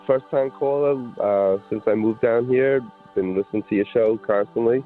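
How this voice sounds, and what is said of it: New York Long Island accent. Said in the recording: “Can I guess where the accent comes from? ... New York? ... Yep, Long Island.”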